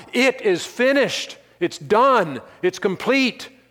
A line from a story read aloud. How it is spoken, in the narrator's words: Christ cried out